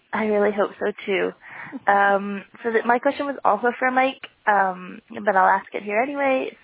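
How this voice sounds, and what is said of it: Sick, strained voice. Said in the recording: “I'm really sick right now, so my voice might cut out.”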